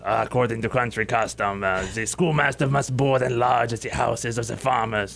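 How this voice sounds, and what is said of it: Old German man accent. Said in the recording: “a rather put off old German man ... That was very good accent.”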